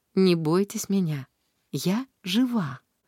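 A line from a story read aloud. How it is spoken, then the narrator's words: Calm as always. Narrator (Russian): Анис сказала, как всегда, спокойно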